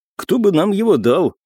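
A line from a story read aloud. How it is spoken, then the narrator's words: Snort then remark. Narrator (Russian): хмыкнул и добавил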